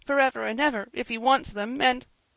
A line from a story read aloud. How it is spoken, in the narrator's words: said Joel, whimpering